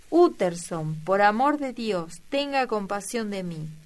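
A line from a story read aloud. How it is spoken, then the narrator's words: Exclaimed. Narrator (Spanish): exclamó la voz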